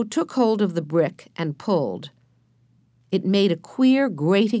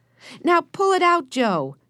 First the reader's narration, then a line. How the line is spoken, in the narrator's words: shouted Benny